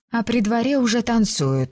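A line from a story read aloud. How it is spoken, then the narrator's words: Sad smiling tone. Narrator (Russian): грустно улыбнулась Филиппа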